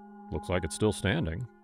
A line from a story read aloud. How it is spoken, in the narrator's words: Jason muttered